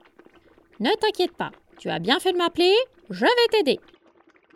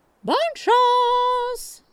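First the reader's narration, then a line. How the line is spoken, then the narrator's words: Shouted. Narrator (French): lui crie Monique qui est sortie dans le jardin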